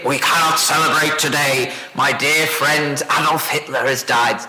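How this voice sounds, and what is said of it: Poor Winston Churchill impression. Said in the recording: “Terrible Winston Churchill accent”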